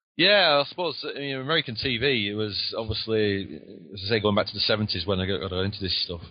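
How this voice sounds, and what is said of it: Lancashire English accent. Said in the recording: “if he sounds a little different than my southern sound, that would be why... I've got the Lancashire accent.”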